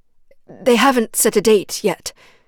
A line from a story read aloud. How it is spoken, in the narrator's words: she blurted, heart pounding in her ears like a war drum